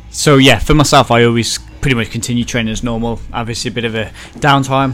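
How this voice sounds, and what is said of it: Wolverhampton accent. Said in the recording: “if you can't tell from the accent,... Wolverhampton”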